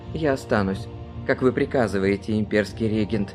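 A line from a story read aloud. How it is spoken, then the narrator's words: Plain. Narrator (Russian): сказал Матьё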